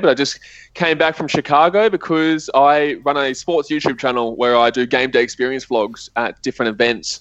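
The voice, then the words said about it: Australian accent. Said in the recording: “as you probably can tell, I've got an Australian accent”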